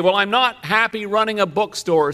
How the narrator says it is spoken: said Dorothy

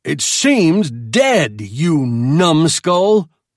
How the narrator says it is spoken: I roared at him

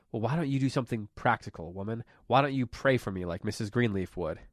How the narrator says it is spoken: he had snarled

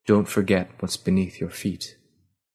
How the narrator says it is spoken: the words, spoken softly

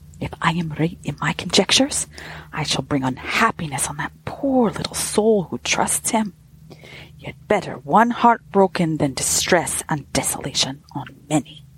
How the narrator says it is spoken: she muttered angrily to herself

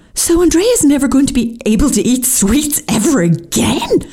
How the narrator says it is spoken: I exclaimed in horror

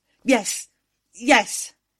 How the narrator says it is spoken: I managed to gasp

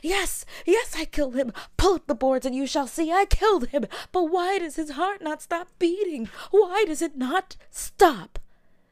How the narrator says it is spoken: cried

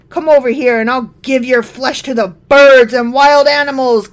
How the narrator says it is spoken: Goliath yelled

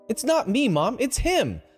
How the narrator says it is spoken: Jill exclaimed

